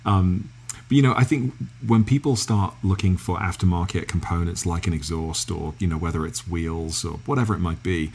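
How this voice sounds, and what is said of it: English accent. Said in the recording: “I'm just going to stay in my English accent.”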